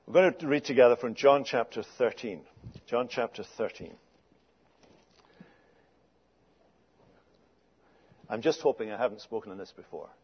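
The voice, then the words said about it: Scottish accent. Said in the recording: “what a joy you have of hearing English spoken as it should be spoken ... Not with an English accent, but with a Scottish accent”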